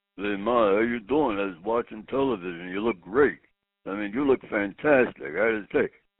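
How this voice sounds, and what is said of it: Imitates another person's voice. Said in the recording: “my impression of her son”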